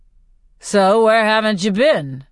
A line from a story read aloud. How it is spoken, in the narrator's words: says Haymitch in a bored voice